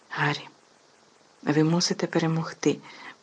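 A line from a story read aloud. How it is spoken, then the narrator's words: Fervent whisper. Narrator (Ukrainian): палко зашепотів Персі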